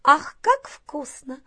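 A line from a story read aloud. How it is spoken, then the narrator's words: Doll's exclamation. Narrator (Russian): воскликнула куколка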